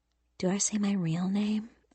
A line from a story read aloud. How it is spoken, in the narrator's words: whispered